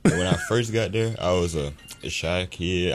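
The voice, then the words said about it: Deep radio voice. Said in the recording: “that's a radio voice ... His voice is deeper than mine”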